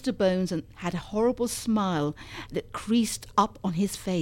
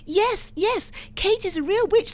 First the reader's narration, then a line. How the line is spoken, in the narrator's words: all cried